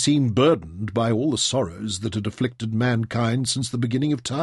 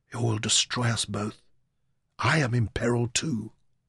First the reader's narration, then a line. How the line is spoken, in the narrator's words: Lostris's voice fell to a whisper